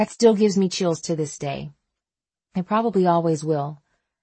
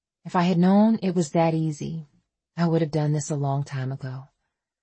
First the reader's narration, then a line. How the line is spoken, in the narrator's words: Faith whispered